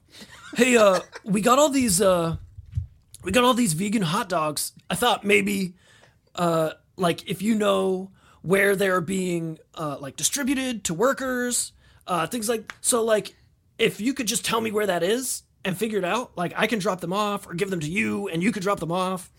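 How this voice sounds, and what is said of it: Imitated voice of a friend. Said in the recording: “this is going to be a great impression ... This is a fantastic impression”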